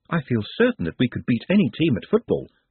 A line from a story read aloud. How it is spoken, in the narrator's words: said Nutt, soothingly